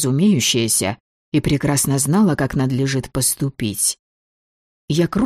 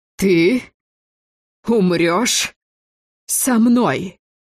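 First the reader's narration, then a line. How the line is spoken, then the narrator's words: Wheezing, halting breathy words. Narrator (Russian): С тяжелым присвистом, делая остановку после каждого слова, выдохнула Тереза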